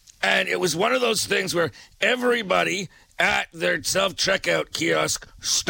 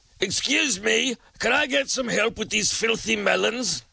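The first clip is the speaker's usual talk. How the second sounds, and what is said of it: Put-on British accent. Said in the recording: “call out in a British accent”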